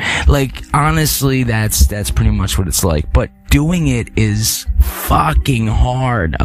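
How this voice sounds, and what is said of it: Usual voice. Nothing is said of it.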